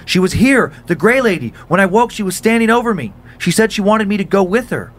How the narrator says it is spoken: shriek

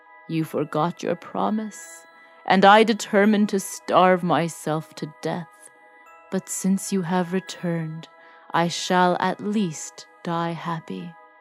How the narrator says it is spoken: The beast opened his eyes, saying in a faint voice

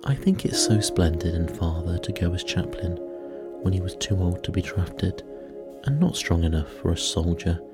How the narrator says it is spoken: said Meg warmly

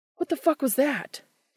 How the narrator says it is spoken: Dean says, looking around frantically

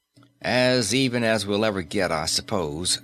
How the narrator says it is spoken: said Fraser

